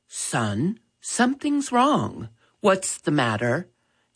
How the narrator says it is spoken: Dad gently asked

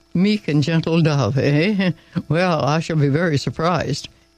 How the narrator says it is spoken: Edward chuckled to himself

